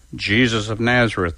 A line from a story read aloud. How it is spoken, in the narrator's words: they replied